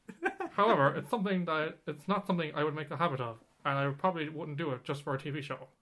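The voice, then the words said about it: Imitates another person's voice. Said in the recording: “Let me try and do it in a Barack Obama impression ... That sounds nothing like it ... It sounds like you're going more like a Reagan ... That's my Barack Obama impression”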